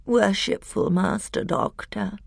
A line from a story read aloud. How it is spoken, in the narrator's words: came a thin, whining voice